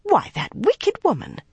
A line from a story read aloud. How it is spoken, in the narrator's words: Chesa exclaimed